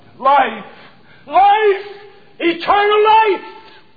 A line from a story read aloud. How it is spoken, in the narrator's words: he cried